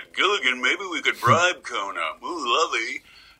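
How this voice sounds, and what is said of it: Impression of Mr. Howell. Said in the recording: “I do an impression of Mr. Howell?”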